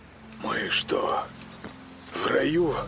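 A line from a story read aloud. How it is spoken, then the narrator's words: Uncertain whisper. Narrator (Russian): Неуверенно прошептал он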